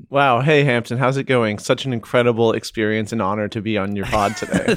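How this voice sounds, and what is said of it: Stiff, robotic-sounding delivery. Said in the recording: “You sound a little robotic.”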